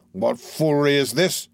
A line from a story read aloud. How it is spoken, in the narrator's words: demanded Sykes